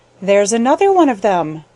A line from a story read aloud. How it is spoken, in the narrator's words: chuckled Jenny